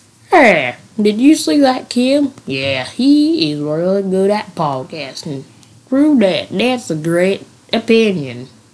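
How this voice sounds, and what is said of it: Poor put-on country accent. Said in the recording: “that's my subpar country accent”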